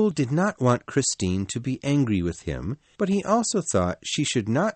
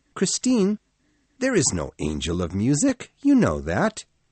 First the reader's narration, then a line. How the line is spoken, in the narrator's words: said kindly